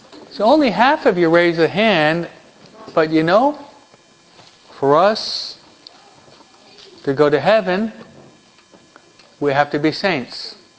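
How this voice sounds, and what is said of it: Pronounced New York accent. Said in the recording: “my New York accent is too pronounced”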